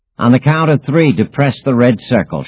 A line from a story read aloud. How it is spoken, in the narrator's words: shouted Savi